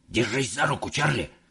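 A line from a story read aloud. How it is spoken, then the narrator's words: Old man whispering. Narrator (Russian): прошептал дедушка Джо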